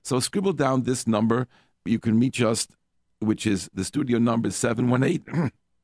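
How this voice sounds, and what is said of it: Voice sounds impaired. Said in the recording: “Excuse my voice.”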